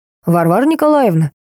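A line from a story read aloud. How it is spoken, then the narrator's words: Attendant's exclamation. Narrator (Russian): воскликнул дежурный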